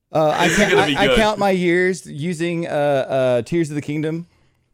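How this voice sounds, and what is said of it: Imitates another person's voice. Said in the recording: “That's the best impression ever. ... It's like there's 2 Ashleys in here right now.”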